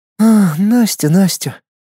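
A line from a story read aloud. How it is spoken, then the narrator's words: Sad, princess. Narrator (Russian): печально покачала головой принцесса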